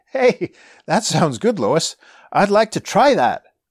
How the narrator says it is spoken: Clark says laughingly

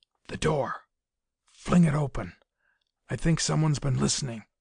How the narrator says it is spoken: without moving so much as a cheek muscle, the colonel whispered, his eyes tense

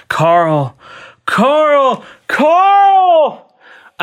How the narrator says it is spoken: A new voice cried out

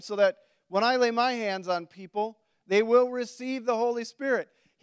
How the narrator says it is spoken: he exclaimed

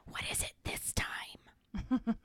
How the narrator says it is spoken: whispers to her

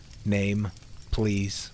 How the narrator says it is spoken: Sam said calmly

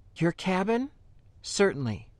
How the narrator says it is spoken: Tinnig agreed quickly and gently

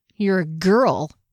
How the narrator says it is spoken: he sneered

